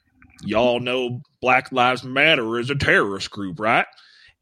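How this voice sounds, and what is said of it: Put-on Southern accent. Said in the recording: “so that's my Southern accent”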